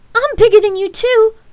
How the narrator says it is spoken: Lark shouted

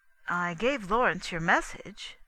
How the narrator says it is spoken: I said

